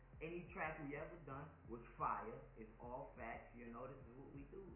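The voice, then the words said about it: Slight Southern US accent. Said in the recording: “you got a little accent, man ... I'm taking a little accent, man. Where you from, the South? ... it's just a little accent ... I was about to say New Orleans”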